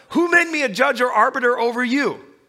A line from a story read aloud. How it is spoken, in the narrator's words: He says back to that man who shouted at him